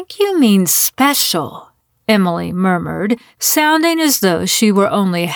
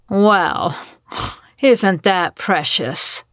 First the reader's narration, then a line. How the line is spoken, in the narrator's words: Gail said with a snort